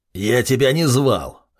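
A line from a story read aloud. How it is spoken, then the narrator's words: Barked. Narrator (Russian): рявкнула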